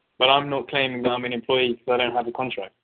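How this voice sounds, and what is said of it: Speaks with an accent. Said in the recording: “your accent”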